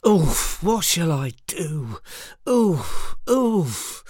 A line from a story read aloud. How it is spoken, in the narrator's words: Tired and disheartened, moaned to himself